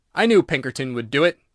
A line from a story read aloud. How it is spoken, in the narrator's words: he exclaimed triumphantly